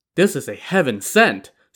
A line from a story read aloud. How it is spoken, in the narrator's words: Song Jiang exclaimed